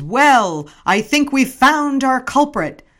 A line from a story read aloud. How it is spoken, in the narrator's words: shout